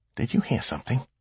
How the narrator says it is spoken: Samhead asked quietly

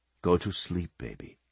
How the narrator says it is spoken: he added softly

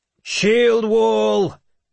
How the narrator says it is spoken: I shouted

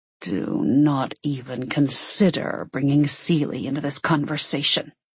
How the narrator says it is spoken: he growled

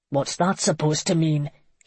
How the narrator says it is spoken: barked

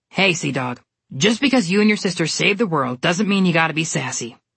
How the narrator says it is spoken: Mother Goose snapped at him

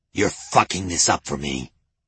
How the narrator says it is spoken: Kessel hissed

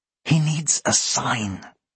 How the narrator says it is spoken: Annabel hissed

